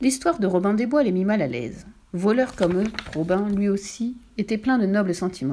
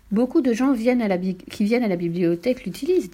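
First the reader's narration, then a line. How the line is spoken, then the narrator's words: Plain. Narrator (French): dit-elle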